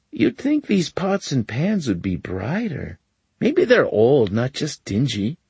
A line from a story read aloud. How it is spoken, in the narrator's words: say in a conversationally mild tone